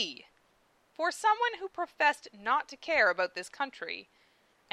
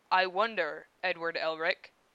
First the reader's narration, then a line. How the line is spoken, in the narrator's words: Armstrong rumbled